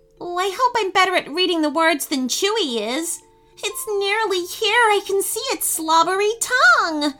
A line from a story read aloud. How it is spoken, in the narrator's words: moaned